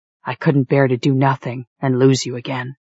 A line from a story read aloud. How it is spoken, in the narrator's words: He whispered